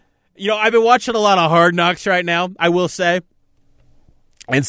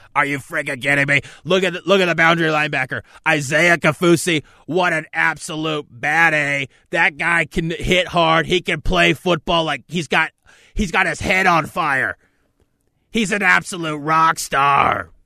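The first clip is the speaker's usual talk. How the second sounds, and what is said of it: Scott Farrell impression, excited announcer voice. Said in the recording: “I should do my entire show in a Scott Farrell voice.”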